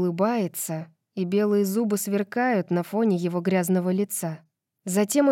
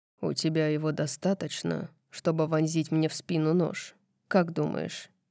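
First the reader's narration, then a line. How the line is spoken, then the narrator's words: Soft voice. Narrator (Russian): Мягко говорит он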